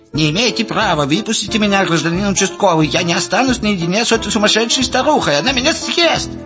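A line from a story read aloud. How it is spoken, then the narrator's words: Shrill blunt voice. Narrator (Russian): яростно затарабанили, и визгливый голос прямолинейно сообщил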